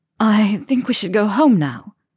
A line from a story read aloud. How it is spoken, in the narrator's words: she said huskily